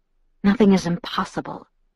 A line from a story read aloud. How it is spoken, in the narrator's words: Edward murmured, voice velvet soft